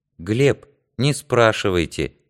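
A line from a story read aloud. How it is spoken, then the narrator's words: Soft. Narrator (Russian): мягко сказала Данка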